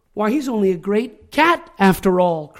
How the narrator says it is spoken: cried one

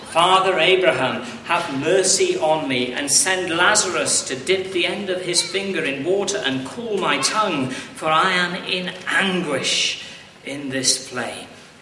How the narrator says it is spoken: the rich man called out

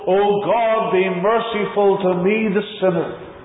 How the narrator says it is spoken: we cried out like one of old

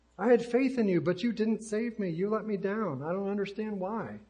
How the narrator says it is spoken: the man exclaimed

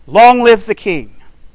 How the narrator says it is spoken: all the people shouted and said

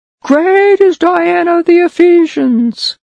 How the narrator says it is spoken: this silly Gentile crowd just shouted

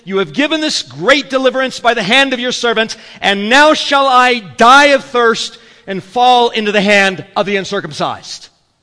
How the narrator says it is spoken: he became very thirsty and cried out to the Lord and said

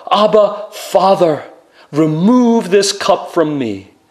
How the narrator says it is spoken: He pleaded with God

